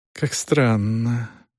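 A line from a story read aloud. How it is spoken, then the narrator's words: Drawled. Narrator (Russian): протянула она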